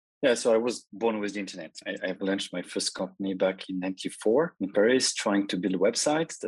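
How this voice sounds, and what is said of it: French accent. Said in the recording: “is French. I am French too. We both have an accent”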